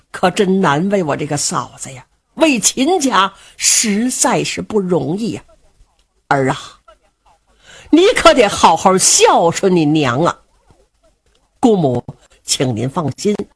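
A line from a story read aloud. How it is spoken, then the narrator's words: Old woman sighing. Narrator (Chinese): 老夫人叹了一口气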